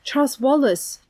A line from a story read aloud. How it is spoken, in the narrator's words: she cried